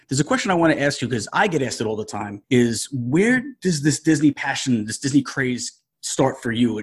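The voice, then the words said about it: New York area accent. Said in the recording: “I grew up in New Jersey. I can tell by your accent that we're probably from somewhere around the same area.”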